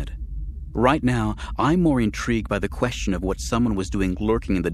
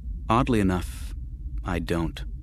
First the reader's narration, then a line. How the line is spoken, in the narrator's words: Mara said slowly